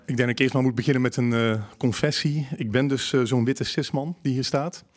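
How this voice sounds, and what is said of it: Dutch speaker with Brabant accent. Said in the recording (Dutch): “Met mijn Brabants accent.”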